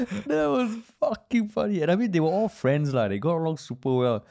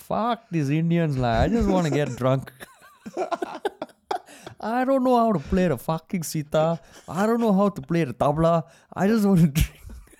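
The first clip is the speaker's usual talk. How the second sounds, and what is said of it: Put-on Indian English accent. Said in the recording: “I will use the accent because I'm Indian, and he really did say it in accent.”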